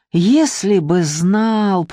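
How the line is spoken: Drawling. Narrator (Russian): протянул Вадим

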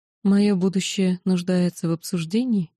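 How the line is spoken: Even tone. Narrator (Russian): ровным тоном поинтересовалась я

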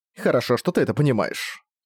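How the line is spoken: Embarrassed mutter. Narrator (Russian): смущенно пробормотала Саша

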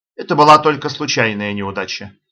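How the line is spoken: Perfectly calm explanation. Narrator (Russian): объяснил совершенно спокойно

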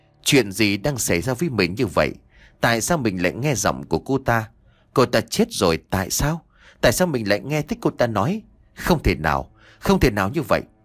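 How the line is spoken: Soft murmur. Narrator (Vietnamese): Nhã Kiều miệng khẽ nói

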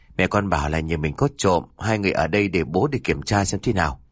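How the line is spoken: Sighing. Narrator (Vietnamese): Ông Minh thở dài chớp miệng rồi nói

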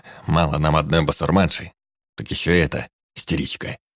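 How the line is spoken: Grumbling under breath. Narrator (Russian): Проворчал он себе под нос

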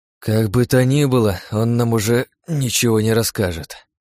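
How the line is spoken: Sighing. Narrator (Russian): вздохнул я

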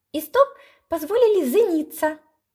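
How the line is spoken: Thin squeaky voice. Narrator (Russian): пискнул тоненький голосок

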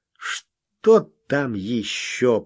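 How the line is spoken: Grumbling. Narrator (Russian): проворчал Смог

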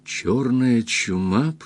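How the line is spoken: Whispered. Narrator (Russian): прошептала Кристин

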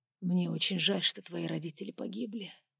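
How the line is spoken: Whisper. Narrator (Russian): прошептал

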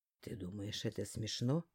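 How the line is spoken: Growl. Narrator (Russian): рыкнул

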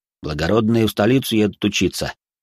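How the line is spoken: Snorting reply. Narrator (Russian): хмыкнул в ответ тот

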